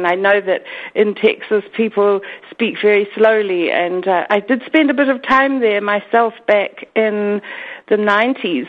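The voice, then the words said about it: New Zealand accent. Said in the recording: “my weird Kiwi accent”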